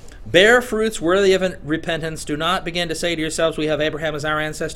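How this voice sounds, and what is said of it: Put-on Southern US accent. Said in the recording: “Unless I throw in that good southern accent.”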